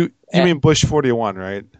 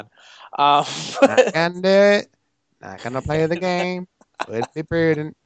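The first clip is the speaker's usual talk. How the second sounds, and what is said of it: Poor imitation of another person's voice. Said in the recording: “worst Dana Carvey impression doing a George Bush impression”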